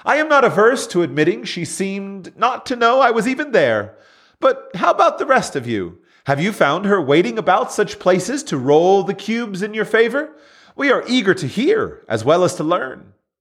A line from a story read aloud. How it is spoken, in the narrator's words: The young man joined the good-natured laughter, then replied